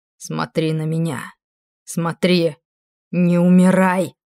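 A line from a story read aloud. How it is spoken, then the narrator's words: Growling demon. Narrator (Russian): зарычал демон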